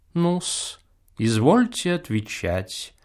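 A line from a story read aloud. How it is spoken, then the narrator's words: Lazy drawl. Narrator (Russian): лениво произносит тот же профессор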